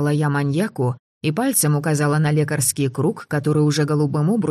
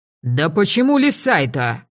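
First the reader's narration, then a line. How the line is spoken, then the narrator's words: Barking shout. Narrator (Russian): Рявкнул он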